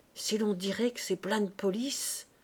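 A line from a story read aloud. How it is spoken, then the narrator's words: Murmuring. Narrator (French): murmura Madame Lecœur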